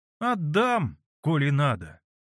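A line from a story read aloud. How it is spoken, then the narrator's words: Lazy drawl. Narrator (Russian): лениво промолвила Параша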